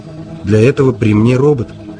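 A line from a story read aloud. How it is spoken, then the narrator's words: Glum interjection. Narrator (Russian): уныло вставил Настойч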